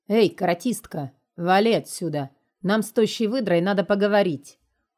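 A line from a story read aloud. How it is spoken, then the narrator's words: Threatening deep bass. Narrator (Russian): угрожающим басом произнесла Крохина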